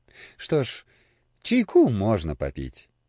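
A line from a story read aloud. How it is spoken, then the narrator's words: Sympathetic sigh. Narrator (Russian): сочувственно вздохнул отец Христофор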